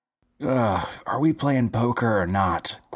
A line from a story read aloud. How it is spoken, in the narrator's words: groaned one of the players